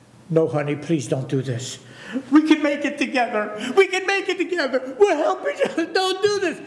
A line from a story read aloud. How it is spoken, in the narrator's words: She begged him